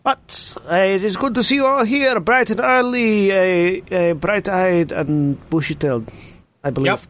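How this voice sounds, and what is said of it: Put-on Spanish accent drifting Russian. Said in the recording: “The accent is slowly becoming Russian. It's weird. ... Spanish. It, it goes to Russian occasionally.”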